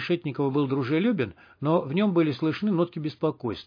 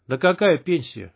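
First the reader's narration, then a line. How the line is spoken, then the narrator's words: Snort. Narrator (Russian): хмыкнул Кондрат Ефимович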